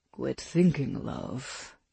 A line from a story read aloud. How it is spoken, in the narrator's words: he murmured against her neck